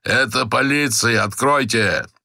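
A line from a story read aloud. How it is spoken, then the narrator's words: Hoarse shout. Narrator (Russian): осипшим голосом крикнул он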